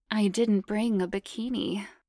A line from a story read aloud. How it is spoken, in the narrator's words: purred